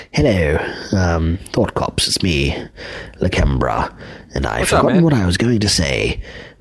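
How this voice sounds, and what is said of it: Put-on British accent. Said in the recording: “Fucking British accent threw me off. ... Might as well just fucking do the rest of the voicemail with a British accent”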